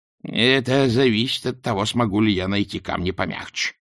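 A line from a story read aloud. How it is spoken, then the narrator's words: Worried mutter. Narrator (Russian): озабоченно пробурчала матушка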